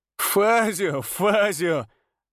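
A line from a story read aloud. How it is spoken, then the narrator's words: Bursting with laughter. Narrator (Russian): расхохотался Антонио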